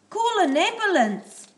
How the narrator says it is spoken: shouted

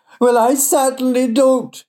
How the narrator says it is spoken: shrieked Doreen

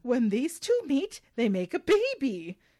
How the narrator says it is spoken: The teacher exclaims

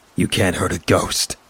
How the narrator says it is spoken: Kobe said coldly

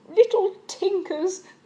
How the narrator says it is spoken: observed Aunt Fan, laughing

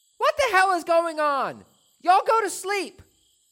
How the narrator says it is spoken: My parents yelling

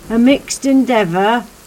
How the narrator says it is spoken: the sheriff shouted over the newly invigorated storm

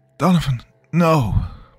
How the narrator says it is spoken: Morales cried out, her voice thick with pain

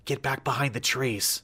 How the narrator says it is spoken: Beth hissed at us

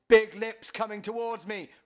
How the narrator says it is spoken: really loudly

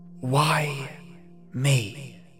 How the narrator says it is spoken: I whispered to myself

